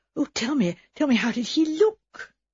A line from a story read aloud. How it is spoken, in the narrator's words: her audience to ask breathlessly